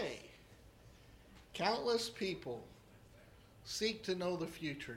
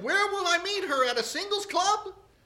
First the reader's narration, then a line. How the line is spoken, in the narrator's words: excitedly, the frog said